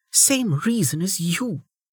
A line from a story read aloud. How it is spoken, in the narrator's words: Velika hissed back